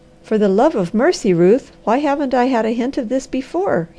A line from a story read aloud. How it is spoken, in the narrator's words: he cried